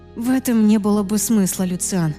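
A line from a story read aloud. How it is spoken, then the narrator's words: Sighing. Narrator (Russian): вздохнула я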